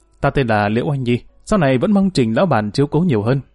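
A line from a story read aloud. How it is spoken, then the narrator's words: Young woman's smiling reply. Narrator (Vietnamese): cô gái nàng ta mỉm cười đáp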